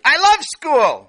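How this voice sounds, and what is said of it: Shouting loudly. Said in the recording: “Sammy shouted. ... You can't raise your voice.”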